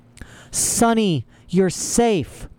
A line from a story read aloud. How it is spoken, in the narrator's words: Klaus cried